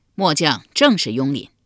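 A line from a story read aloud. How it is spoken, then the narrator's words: Loud reply. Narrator (Chinese): 雍林高声回道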